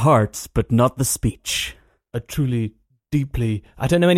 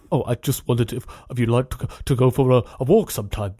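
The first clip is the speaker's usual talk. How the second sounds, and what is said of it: Imitates another person's voice. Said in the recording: “This is a terrible impression... your voice was very good”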